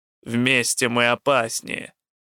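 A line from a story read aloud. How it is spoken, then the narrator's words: Snorting old priest. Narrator (Russian): фыркнул старый жрец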